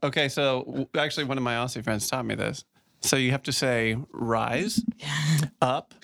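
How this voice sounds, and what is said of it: Usual voice. Nothing is said of it.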